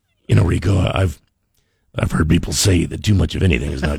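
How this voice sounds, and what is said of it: Deep, sexy crooning voice. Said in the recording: “You sound like Barry White ... your voice is ... sexy”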